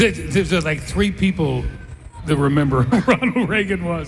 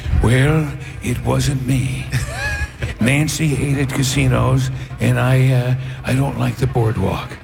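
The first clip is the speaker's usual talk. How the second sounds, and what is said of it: Imitates another person's voice. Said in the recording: “my Ronald Reagan impersonation”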